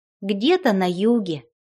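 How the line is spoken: Plain. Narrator (Russian): ответила девушка

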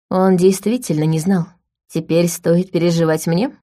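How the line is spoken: Gloomy. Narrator (Russian): мрачно уточнила Ая

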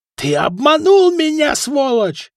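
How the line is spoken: Shrill scream. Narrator (Russian): завизжал Фока

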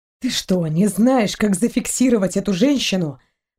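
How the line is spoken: Hissing. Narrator (Russian): прошипел Торн

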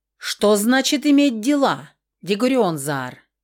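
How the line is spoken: Shouted from seat. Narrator (Russian): выкрикнул кто-то с места

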